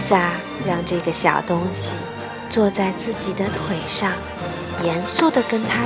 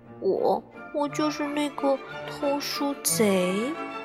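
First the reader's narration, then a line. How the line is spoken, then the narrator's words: Ashamed, quiet. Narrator (Chinese): 羞愧地低下了头，难为情地小声说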